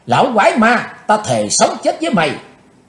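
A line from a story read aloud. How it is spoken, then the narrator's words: Young woman's furious shout. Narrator (Vietnamese): Tức giận bốc lên đầy mặt, thiếu nữ áo đen hét to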